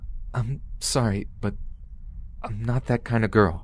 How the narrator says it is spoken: said in a terrified, cracking voice

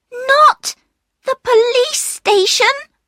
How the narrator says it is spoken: cried another voice

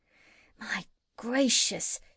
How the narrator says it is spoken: said Gub-Gub in a hushed voice

